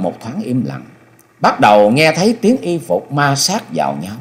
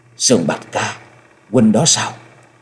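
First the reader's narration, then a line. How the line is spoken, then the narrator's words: Trembling, choked with emotion. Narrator (Vietnamese): Giọng nói hơi run run, thể hiện rõ sự trông chờ và mừng vui, không giấu được nỗi xúc động đến nghẹn ngào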